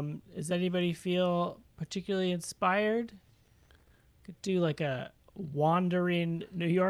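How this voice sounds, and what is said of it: Usual voice. Nothing is said of it.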